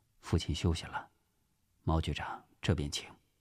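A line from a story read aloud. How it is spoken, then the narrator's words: Soft voice. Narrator (Chinese): 蒋经国轻声对毛仁凤说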